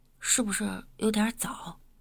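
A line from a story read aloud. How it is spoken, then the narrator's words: Tearful, choked, tentative question. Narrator (Chinese): 我眼泪泛花，有一点哽咽，试探的问道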